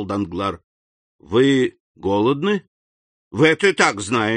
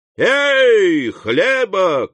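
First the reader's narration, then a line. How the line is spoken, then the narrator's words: Shout. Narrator (Russian): крикнул он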